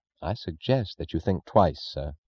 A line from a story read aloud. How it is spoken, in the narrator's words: Francisco said gravely